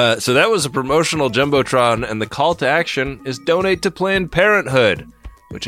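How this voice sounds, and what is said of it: Usual voice. Nothing is said of it.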